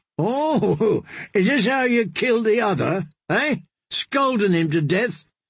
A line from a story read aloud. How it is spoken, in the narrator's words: Darian laughed